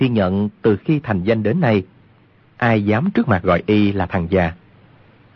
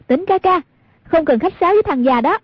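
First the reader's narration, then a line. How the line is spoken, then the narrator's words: Provoking call. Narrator (Vietnamese): Hoàng Dung muốn gây rối tâm lý của Cừu Thiên Nhận, bèn kêu lên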